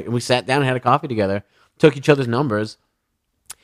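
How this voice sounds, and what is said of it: Usual voice. Nothing is said of it.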